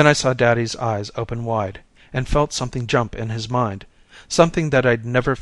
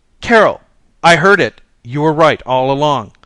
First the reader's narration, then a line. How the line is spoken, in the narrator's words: he was running downstairs, shouting